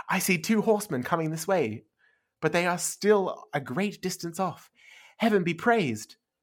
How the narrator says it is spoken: exclaimed

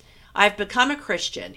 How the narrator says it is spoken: blurted out

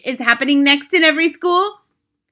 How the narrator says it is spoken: shouted the Grand High Witch

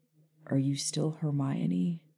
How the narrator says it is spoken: he asked quietly

